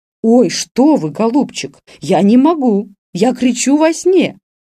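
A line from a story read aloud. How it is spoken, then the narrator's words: Distressed exclamation. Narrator (Russian): воскликнула бедная Раневская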